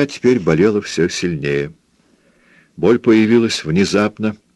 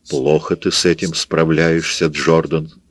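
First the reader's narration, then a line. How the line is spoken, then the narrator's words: Plain. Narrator (Russian): сказал он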